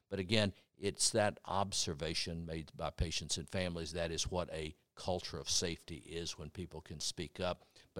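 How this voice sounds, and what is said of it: Speaks with an accent. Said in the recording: “It's nice to hear your accent.”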